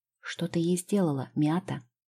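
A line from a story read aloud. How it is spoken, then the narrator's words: Whispered question. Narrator (Russian): шепотом спросила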